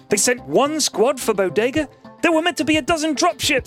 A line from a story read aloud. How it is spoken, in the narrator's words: screamed Cadet Jellyface